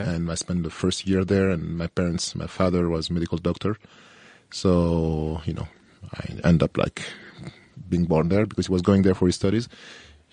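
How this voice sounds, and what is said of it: French accent in English. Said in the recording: “sorry for my accent as well. You know, I grew up in France, so you can listen to the French flavor, accent.”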